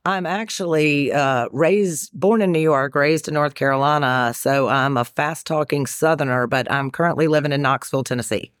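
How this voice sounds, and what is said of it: Carolina Southern American accent. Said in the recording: “you've got an accent ... It sounds a little Carolina-ish ... you're starting to drag your words out a little bit”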